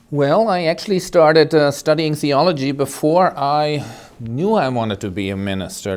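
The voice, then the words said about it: German accent. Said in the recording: “listeners may notice a little bit of a different accent today. We're not going to have the usual New Hampshire accent. You're originally from Germany”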